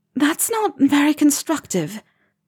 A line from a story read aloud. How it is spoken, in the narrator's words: Hermione said, a little breathlessly, from the vicinity of his knee